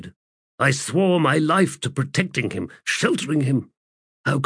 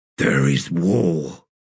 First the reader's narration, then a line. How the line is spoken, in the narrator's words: Mappo grunted